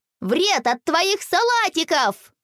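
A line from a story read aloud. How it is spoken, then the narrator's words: Two voices shouting over each other. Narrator (Russian): наперебой закричали Рома и Боря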